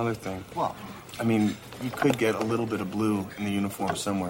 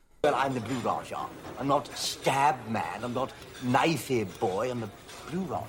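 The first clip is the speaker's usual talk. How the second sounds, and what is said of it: Affected British accent, Blue Raja. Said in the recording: “the character known as the Blue Raja ... sporting an affected British accent.”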